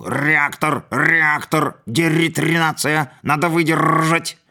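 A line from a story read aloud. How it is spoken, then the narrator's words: Hoarse shout. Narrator (Russian): хрипло выкрикнул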